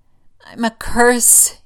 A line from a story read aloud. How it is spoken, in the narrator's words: he moans